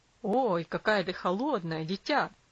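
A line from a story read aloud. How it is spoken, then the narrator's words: Exclaiming. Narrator (Russian): воскликнул отец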